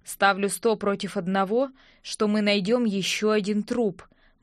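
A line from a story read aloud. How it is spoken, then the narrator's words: Gloomy. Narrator (Russian): мрачно сказал Винсент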